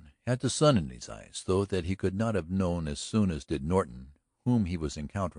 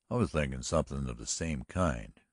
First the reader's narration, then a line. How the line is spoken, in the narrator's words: returned Norton coolly